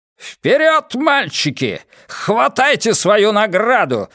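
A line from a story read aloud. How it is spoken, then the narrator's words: Shout. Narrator (Russian): закричал Хаскель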